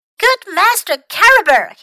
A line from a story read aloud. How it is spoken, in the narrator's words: he cried